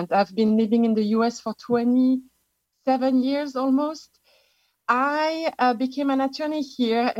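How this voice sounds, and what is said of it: French accent. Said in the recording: “I am actually an expatriate from France. You can tell from my accent.”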